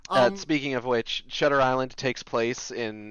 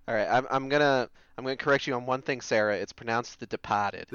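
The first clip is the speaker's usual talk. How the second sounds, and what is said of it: Exaggerated Boston accent. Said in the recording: “you're allowed to do that accent because you're from Boston”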